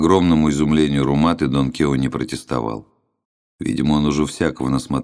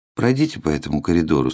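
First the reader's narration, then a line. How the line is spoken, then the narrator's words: Flat, toneless voice. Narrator (Russian): сказал чиновник бесцветным голосом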